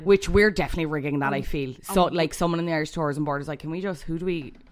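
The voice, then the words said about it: Irish Cork accent. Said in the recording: “you're a Cork native, I'm a Dublin native ... But sexiest accent, isn't it? ... Sexiest accent ... When we sound like this”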